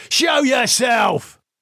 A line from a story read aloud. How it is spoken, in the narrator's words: Lee shouted